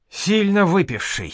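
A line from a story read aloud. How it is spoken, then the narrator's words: Sighing. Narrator (Russian): вздохнул великий князь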